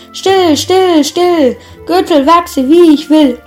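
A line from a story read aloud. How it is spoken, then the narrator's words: Dwarf calling. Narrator (German): rief der Zwerg wieder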